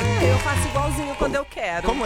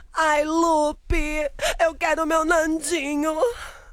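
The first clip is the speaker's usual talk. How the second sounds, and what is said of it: Imitates a dubbing actress's voice. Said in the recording (Portuguese): “Como é a voz da Thalia? ... você tá imitando a voz, né? Da dubladora.”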